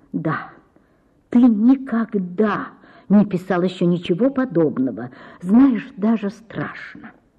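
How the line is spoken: Quiet, hiding jealousy. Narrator (Russian): Ольга Ивановна ревновала Рябовского к картине и ненавидела ее, но говорила тихо

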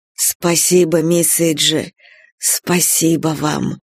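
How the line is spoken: Tender. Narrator (Russian): сказал ласково

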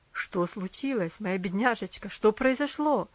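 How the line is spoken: Alarmed, surprised exclamation. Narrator (Russian): воскликнул он с тревогой и удивлением

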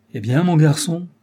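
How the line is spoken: Good-natured old-fashioned exclamation. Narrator (French): s'écria-t-elle de cette voix bonasse, que tenaient en réserve pour les belles occasions les femmes de l'ancienne aristocratie

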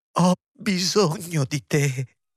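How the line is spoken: Sobbing, muffled against lap. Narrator (Italian): singhiozzò, appoggiandole la fronte al grembo

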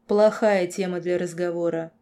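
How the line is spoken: Cold. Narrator (Russian): холодно произнес лорд

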